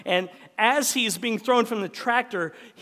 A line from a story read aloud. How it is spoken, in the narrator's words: he yells out